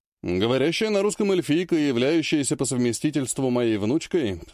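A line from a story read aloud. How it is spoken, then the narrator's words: Plain. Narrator (Russian): сказал Владимир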